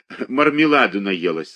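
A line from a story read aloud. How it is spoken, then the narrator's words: Said with a laugh. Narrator (Russian): сказала она и засмеялась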